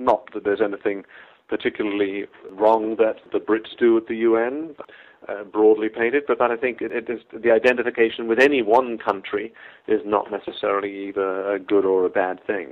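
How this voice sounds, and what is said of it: English accent. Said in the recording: “your English accent”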